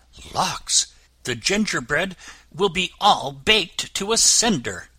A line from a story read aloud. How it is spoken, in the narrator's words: in a hurry, and exclaiming